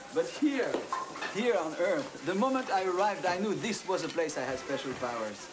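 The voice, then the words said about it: French accent. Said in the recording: “your French accent”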